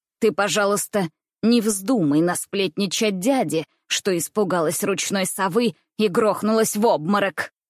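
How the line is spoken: Angry clipped words, woman. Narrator (Russian): Сердито обрывая каждое слово, говорила немка

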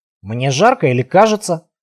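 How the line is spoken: Mutter. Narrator (Russian): пробормотал Алвер

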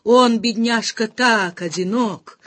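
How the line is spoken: Sigh. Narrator (Russian): вздохнула она

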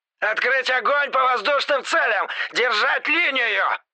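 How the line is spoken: Yelling. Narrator (Russian): Орал

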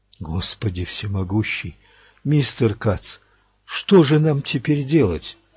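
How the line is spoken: Whisper. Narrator (Russian): прошептал помощник

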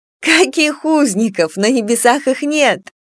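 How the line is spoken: Laughing. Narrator (Russian): смеялась Эмия

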